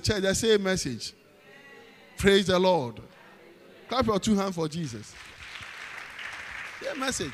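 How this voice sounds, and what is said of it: Ghanaian-accented English. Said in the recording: “I'm preaching with a Ghanaian accent. This is not American. I'm not American. I'm not British. I don't have a British accent.”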